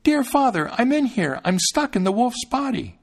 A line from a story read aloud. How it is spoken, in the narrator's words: he cried out